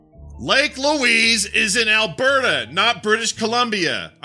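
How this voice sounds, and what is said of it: Yelling, angry shouted delivery. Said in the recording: “I'm going to do it in Andy's voice ... I'm going to say it in the way he's written it ... I'm yelling ... Sorry again for all the yelling”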